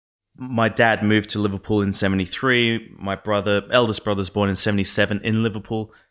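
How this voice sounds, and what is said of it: Australian accent. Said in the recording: “why I speak with an Australian accent”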